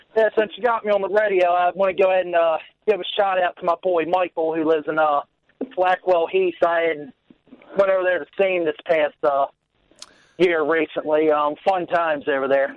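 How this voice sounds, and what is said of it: American accent with hint of English. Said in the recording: “Your accent is very American, but then every now and then you there's a hint of English.”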